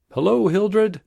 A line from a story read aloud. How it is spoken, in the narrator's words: one of them called out